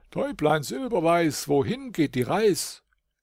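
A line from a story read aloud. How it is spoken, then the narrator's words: Called upward. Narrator (German): rief hinauf zu ihnen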